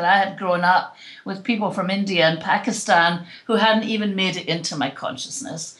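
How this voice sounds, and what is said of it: Scottish accent. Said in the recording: “having an accent that's socially acceptable ... my accent got promoted when I left Scotland ... in Scotland, my accent was considered not to be the Queen's English ... oh, gosh, I love your accent”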